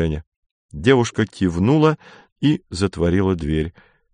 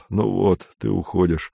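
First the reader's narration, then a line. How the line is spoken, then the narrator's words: Sad. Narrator (Russian): Кондратьев грустно сказал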